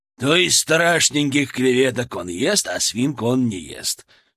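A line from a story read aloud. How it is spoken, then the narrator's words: Chuckling. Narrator (Russian): хохотнул Беземюллер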